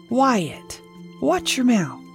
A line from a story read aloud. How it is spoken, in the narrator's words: His mother gasped